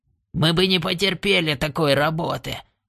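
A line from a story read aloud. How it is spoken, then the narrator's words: Grumbling. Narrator (Russian): проворчал он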